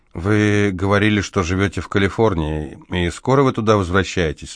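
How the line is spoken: Plain. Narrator (Russian): спросила Люси

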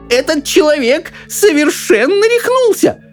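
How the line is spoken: Old woman shouting. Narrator (Russian): закричала бабушка Джозефина

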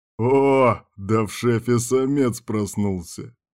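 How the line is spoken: Chuckle. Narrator (Russian): хохотнул Кирк

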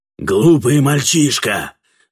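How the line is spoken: Furious shout. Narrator (Russian): закричал Катфаэль, ощутив прилив бешенства

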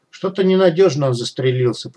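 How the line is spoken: Cat's grumble. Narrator (Russian): проворчал кот

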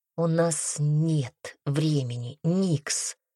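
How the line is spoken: Through gritted teeth. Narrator (Russian): процедил Пайер

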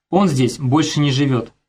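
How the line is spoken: Plain. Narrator (Russian): сказала она

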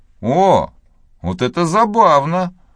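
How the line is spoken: Exclaimed. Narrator (Russian): воскликнул Том

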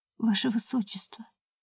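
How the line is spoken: Barely audible. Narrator (Russian): едва слышно сказала

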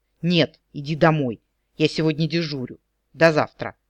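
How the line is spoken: Strained, breathless. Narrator (Russian): выдавил из себя, едва переводя дух

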